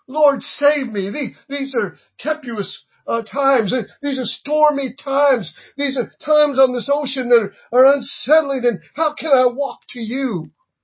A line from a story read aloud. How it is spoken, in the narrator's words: he couldn't quite gather himself, and he cried out and said